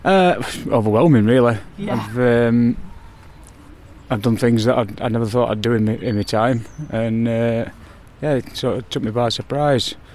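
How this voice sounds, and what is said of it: Northern English accent. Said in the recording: “you've got a northern accent”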